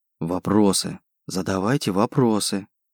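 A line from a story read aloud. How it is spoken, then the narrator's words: Whisper. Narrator (Russian): прошептал он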